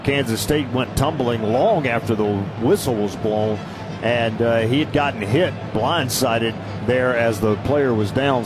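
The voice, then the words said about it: Southern American accent. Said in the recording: “Don't tell me I'm losing my southern accent. ... No, you'll never lose that.”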